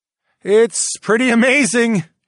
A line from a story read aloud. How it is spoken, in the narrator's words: I shouted down to my wives